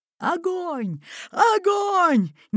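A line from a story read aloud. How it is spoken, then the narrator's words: Frantic hoarse rasp. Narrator (Russian): неистово хрипел капитан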